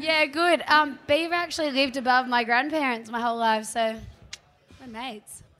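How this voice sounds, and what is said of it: Hoarse, partly lost voice. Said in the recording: “I've lost my voice a little bit.”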